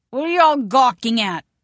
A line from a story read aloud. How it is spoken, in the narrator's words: she slurs, the color rising in her chubby cheeks